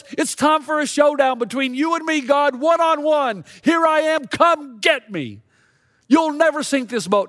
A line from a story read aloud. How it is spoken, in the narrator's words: he yells